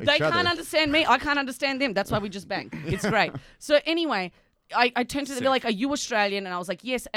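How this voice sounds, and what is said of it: Australian accent. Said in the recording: “are you Australian? ... my disgusting accent”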